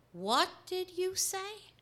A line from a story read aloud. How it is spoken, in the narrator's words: spoke slowly